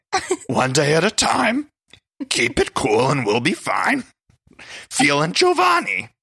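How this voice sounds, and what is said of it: Cookie Monster voice singing. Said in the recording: “My Cookie Monster voice.”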